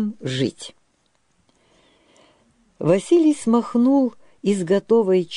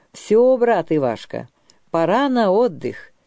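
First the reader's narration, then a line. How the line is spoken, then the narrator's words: Cheerful. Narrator (Russian): весело сказал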